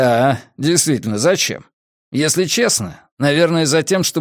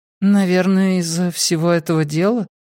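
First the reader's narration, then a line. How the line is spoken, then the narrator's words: Noncommittal tone. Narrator (Russian): неопределенным тоном проговорила Мэри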